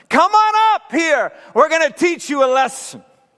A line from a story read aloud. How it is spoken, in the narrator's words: Then the men from the outpost shouted